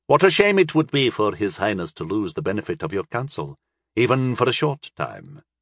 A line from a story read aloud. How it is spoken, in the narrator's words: Moran said dryly